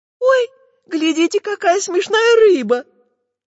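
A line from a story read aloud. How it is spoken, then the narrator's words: Squeaky child's voice. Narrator (Russian): пропищала Настенька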